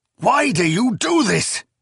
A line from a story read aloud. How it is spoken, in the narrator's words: Zynemus cried, his face both pained and enraged